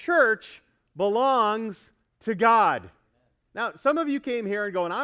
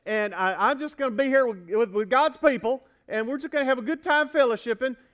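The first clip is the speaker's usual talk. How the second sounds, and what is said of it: Put-on Southern accent. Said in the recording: “I don't know why the southern accent comes out, but it just does.”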